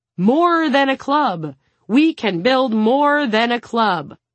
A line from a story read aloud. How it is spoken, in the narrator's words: Suna thundered